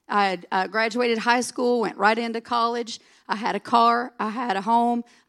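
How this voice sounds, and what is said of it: Southern US accent. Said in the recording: “Mississippi ... that southern accent”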